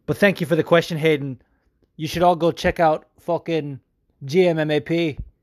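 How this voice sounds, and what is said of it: Poor put-on northern English accent. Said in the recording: “I promised I would answer this question in my best northern accent, and right now it's shit.”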